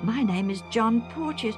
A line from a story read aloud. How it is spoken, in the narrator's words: the younger man exclaimed in turn